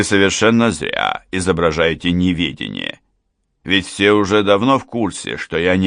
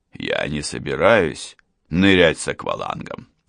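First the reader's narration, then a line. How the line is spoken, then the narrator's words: Calm objection. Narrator (Russian): спокойно возразил Лев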